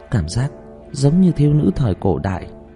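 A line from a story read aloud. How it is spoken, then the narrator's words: Sighing. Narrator (Vietnamese): thở dài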